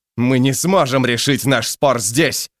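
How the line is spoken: Barked. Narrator (Russian): рявкнул Сумрак

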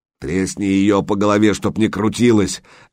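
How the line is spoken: Barked threat. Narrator (Russian): рявкнул тот, который держал Санька на ноже

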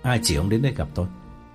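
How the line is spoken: Cold question. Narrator (Vietnamese): lạnh lùng hỏi

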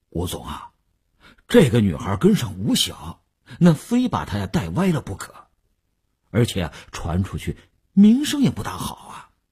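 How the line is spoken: Hesitant, reluctant. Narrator (Chinese): 李大公欲言又止，李大公才说

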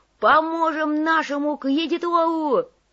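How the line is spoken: Yelled. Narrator (Russian): заорал Копыта

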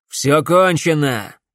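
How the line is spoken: Shouted. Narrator (Russian): крикнул Шепард Максу

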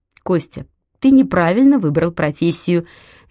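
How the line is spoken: Cheerful exclamation. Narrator (Russian): весело воскликнула

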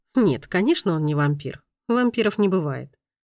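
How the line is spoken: Calm reply. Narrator (Russian): спокойно ответил маэстро

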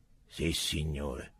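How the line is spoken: Crisp, regulation tone. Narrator (Italian): rispose Tronk con voce regolamentare

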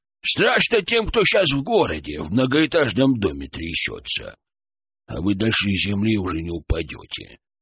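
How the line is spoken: Creaky old man's voice. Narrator (Russian): проскрипел дед

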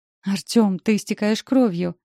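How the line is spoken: Frightened exclamation. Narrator (Russian): восклицаю испуганно

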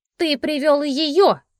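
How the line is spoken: Screamed. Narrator (Russian): закричала

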